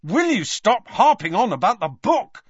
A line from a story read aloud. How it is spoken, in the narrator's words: snapped Harry